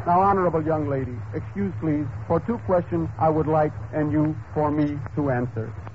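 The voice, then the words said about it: Exaggerated put-on foreign accent. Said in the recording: “Pardon my rotten accent.”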